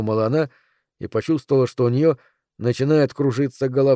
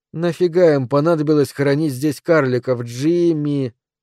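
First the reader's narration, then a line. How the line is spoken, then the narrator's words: Drawl, rural Bristol accent. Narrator (Russian): протянула она со своим деревенским бристольским акцентом, акцентом своих родителей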